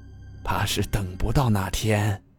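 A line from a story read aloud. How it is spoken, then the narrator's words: Low voice, together. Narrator (Chinese): 他们低声说了句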